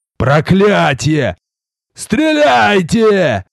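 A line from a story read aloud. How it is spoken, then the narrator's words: Furious ringing scream. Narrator (Russian): завопил в ярости, звенящий крик разнесся далеко в стороны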